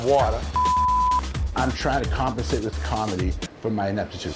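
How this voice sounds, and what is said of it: Strong Boston accent. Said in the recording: “his Boston accent back in full force”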